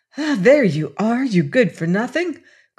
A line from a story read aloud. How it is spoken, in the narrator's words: cried, struggling bravely forward